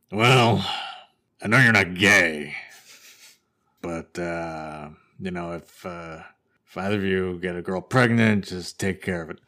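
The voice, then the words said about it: Imitates another person's voice. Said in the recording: “this is my typical impression of my dad.”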